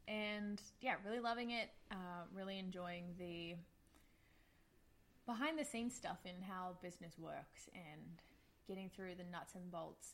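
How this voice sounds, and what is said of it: Australian accent. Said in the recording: “there is an accent. I'm an Australian”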